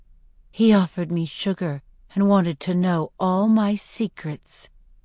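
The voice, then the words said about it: Seductive voice. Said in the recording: “in imitation of Finnick ... I say in my best seductive voice”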